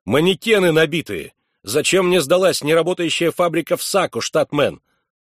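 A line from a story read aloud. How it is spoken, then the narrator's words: Shouting into phone. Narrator (Russian): заорал в телефон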